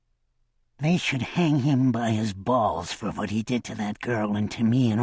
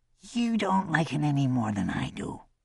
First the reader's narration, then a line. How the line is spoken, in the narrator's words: Pell whispered